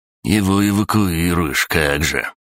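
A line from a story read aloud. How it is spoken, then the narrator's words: Grumbling. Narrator (Russian): проворчал крыса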